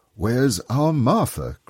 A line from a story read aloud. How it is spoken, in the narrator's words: cried Bob